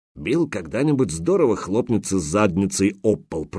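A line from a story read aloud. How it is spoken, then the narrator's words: Grumbling mutter. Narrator (Russian): пробурчал хозяин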